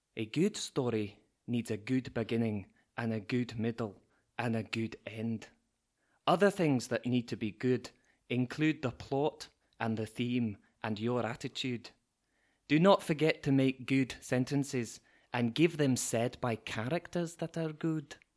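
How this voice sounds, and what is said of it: Put-on Scottish accent. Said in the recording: “Is the accent a sort of a clue? ... Scottish”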